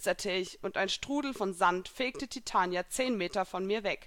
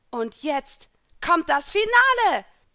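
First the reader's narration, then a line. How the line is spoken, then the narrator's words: Shouting. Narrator (German): schrie ich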